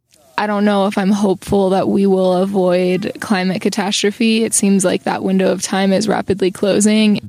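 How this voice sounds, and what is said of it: Young woman speaking with vocal fry. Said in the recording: “The vocal fry.”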